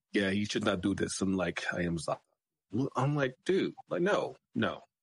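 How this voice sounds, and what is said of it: Attempted put-on accent. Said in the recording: “that wasn't bad. That wasn't. ... I don't know if that was an accent. ... But that wasn't bad.”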